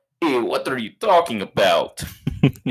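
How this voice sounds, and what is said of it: Exaggerated Russian accent. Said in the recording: “the craziest Russian ... accent.”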